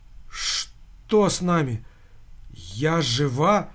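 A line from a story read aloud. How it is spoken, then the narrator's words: Weak voice. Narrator (Russian): слабым голосом произнесла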